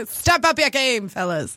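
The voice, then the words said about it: 1920s newsboy character voice. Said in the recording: “what was that voice? ... It's like my newsies voice from the 1920s.”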